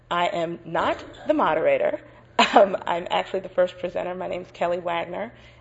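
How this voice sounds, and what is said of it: Scratchy voice from a cold. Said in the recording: “apologize for my voice. I decided to catch a cold once I got to Boston, so it's a little scratchy this morning.”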